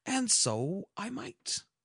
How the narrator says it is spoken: replied Oberon

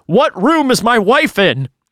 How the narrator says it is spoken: shouting

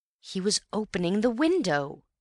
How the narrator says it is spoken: cried Antony

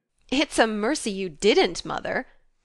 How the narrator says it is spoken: laughed Jo

